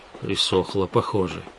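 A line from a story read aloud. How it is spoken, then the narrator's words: Muttered. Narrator (Russian): Пробормотал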